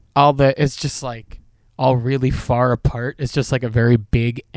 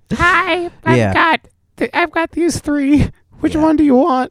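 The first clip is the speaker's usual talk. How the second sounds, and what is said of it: Old lady character voice. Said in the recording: “my old lady voice”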